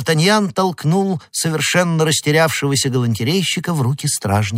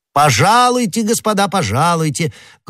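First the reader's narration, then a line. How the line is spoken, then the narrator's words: Loud. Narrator (Russian): громко произнес Д'Артаньян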